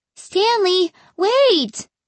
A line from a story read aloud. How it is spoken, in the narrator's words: I cried